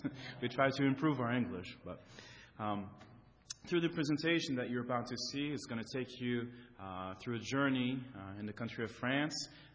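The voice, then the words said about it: French accent speaking English. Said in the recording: “my wife and I are French, okay? So you'll in the presentation, you'll probably hear again that accent ... don't lose that accent. It's so nice to hear.”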